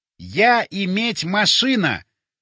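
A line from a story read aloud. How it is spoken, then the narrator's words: Loud, deliberate enunciation. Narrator (Russian): громко и раздельно проговорил я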